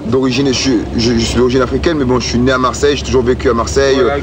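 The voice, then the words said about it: Marseille French accent. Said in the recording (French): “j'ai l'accent marseillais”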